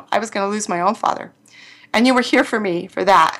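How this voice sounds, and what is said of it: Emotional voice. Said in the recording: “I'm a little emotional”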